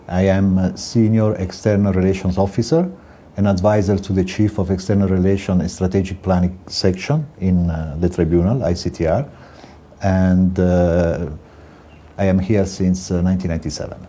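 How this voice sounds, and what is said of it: Italian accent. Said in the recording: “I'm Italian. I thought with my accent you would recognize immediately.”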